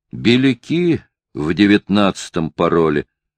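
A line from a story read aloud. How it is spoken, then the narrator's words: Calm, offhand. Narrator (Russian): сказал спокойно, точно разговор шел о каком-то незначительном событии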